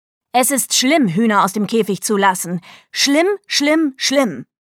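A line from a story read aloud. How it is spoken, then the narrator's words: Blustering. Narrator (German): polterte sie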